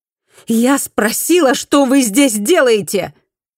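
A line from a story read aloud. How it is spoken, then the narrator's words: Shouting louder. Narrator (Russian): Фуми закричала еще громче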